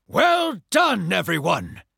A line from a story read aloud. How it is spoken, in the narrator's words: Doc shouted